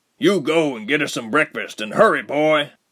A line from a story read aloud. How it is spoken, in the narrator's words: the other barked